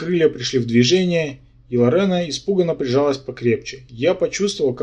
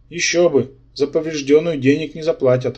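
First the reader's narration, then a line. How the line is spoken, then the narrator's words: Smirking snort. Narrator (Russian): хмыкнул Рабан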